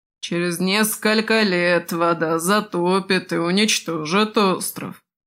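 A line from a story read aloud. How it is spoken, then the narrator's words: Ominous grumble. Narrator (Russian): зловеще бурчал господин Спирос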